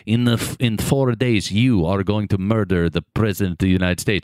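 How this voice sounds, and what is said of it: Yakov Smirnoff-style Russian accent. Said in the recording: “your Yakov Smirnoff impression ... I did go Russian.”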